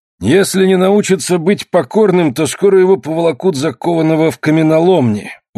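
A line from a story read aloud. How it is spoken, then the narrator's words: Sullen grumble. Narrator (Russian): угрюмо проворчал худой кузнец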